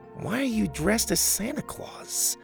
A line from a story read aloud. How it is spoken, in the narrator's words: Grandpa chuckled